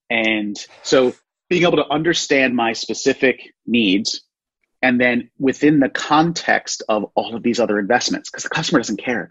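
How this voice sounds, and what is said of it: Philadelphia East Coast accent. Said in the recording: “I have a horrible Philadelphia accent, so you can probably hear my East Coast words”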